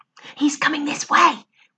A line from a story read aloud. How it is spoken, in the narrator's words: whispered Lou